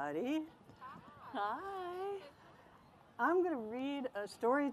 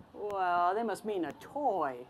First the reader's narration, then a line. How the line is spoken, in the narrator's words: said